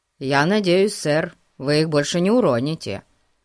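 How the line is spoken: Serious tone. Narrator (Russian): серьезным тоном сказал Фати

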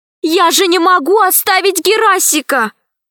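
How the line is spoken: Exclamation. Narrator (Russian): воскликнула Алиса

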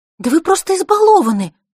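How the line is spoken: Passionate exclamation. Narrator (Russian): горячо воскликнула она

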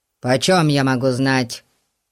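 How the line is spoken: Snapping, secretly dismayed. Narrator (Russian): Огрызнулся мистер Гун, но сердце у него упало

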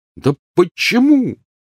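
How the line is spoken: Angry exclamation. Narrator (Russian): воскликнул Рон, гневно уставившись на мать

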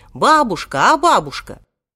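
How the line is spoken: Shouting. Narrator (Russian): он тут же крикнул

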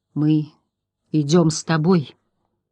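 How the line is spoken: Quiet. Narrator (Russian): тихо сказал Атрей

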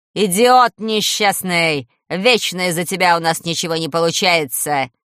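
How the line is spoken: Growling. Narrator (Russian): рычала толстая Манефа

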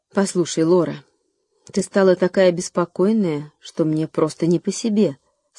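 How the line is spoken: Plain. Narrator (Russian): сказала мама

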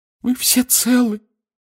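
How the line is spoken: Distraught sobbing. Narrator (Russian): всхлипнула миссис Уизли, в смятении

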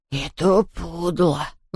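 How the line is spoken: Grumbling. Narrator (Russian): ворчал Хуга

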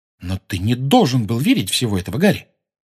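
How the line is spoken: Sudden sharp tone. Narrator (Russian): вдруг резко сказала

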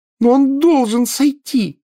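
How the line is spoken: Shrill wail. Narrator (Russian): завопила Гермиона

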